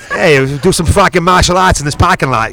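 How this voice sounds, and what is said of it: Put-on Boston accent. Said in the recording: “Can you talk in a Boston accent for the rest of this?”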